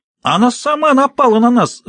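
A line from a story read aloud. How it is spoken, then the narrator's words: Shriek. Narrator (Russian): взвизгнула Джорджия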